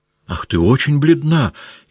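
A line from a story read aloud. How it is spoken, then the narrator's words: Frightened speech. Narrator (Russian): испуганно сказала княжна Марья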